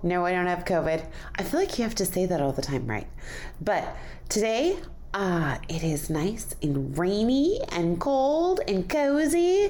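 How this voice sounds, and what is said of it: Voice a little off, congested. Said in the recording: “my voice is a little off. My voice! ... I'm getting over a cold”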